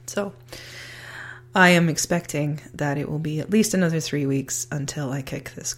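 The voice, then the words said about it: Sick, coughing voice. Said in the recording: “I'm pretty sure you can hear it in my voice, but I am still sick. I am coughing.”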